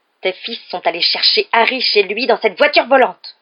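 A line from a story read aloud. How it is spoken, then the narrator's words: Exclaimed. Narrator (French): s'exclama Madame Weasley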